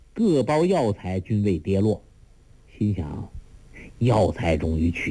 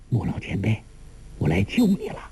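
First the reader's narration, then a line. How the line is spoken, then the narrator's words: Low voice. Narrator (Chinese): 低声说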